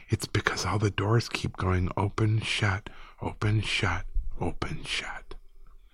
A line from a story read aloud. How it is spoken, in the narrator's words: he whispered